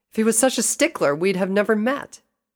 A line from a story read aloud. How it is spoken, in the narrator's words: Rainbow snapped